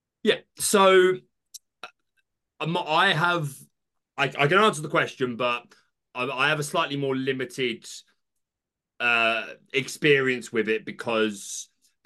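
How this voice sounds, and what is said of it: British accent. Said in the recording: “your accent. So you live in the UK.”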